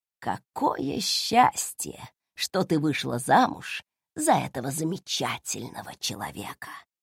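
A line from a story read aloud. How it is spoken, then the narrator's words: Aunt's whisper. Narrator (Russian): прошептала тетушка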